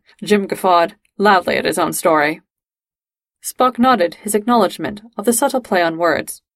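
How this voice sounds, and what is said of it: Usual voice. Nothing is said of it.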